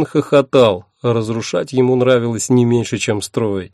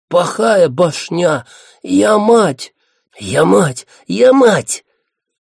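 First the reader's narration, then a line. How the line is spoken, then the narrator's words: Hissing creatures. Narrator (Russian): Шипели лонжи синапсы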